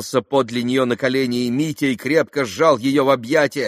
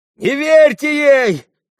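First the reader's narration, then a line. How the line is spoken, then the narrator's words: Shouting. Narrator (Russian): кричал он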